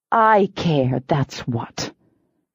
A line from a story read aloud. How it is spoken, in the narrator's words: I snarled